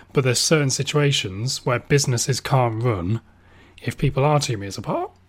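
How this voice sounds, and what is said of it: Slightly strained, throaty voice. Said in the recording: “My voice might sound a bit weird, by the way, because I've had kind of like an ongoing tonsillitis issue.”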